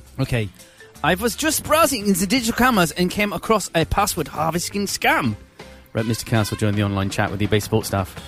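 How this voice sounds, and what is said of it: Put-on German accent. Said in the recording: “Read that last bit again in an accent. ... Do it in German.”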